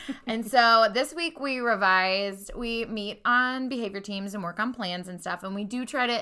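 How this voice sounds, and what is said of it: Usual voice. Nothing is said of it.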